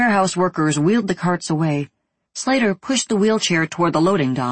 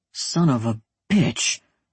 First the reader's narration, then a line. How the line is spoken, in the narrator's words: Ricky muttered